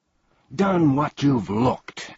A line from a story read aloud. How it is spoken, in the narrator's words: angrily shouted one of the salesmen